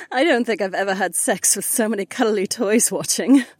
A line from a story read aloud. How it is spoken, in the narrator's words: Kat laughed